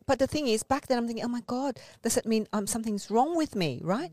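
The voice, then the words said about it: Speaks English with an accent. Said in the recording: “You still do have an accent.”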